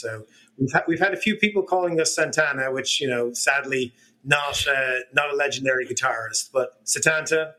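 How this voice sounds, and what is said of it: Irish accent. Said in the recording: “Irish, as you can sort of tell from the accent”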